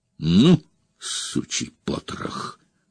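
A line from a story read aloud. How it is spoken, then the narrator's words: Hiss. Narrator (Russian): прошипел Здор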